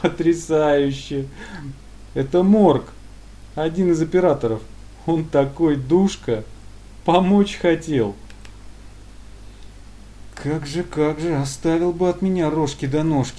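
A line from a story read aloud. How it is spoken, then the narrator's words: Laughing, then cheerful. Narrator (Russian): Собеседник вдруг рассмеялся, а спустя весело прокомментировал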